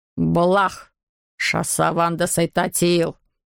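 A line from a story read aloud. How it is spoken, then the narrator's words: Muttering creature. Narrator (Russian): Забормотало оно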